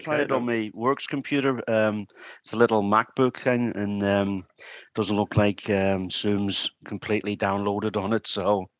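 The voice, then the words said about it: Northern Irish Ulster accent. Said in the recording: “Unmistakable Ulster brogue of yours”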